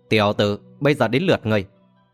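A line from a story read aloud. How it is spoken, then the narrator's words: Harsh, menacing. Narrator (Vietnamese): Đoàn gằn giọng nói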